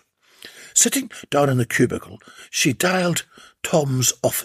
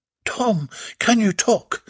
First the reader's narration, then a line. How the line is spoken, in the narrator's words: Slavia burbled breathlessly